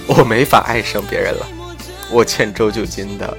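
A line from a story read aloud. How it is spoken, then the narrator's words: Smiling. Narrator (Chinese): 刘小米笑着说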